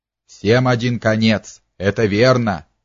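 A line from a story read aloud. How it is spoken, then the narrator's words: Spiteful, angry. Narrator (Russian): произнес он злобно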